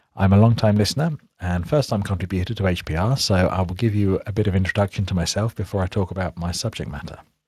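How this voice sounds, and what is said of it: British accent. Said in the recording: “you might recognize from my accent that I'm British”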